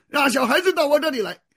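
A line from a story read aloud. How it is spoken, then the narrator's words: Angry. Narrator (Chinese): 耶稣啊就恼怒，对门徒说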